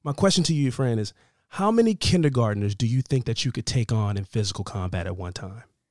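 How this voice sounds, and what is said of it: Husky, sultry voice. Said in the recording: “I'm recovering from something... he got me a little under the weather. Max got me sick... my voice is a little sultry at the moment.”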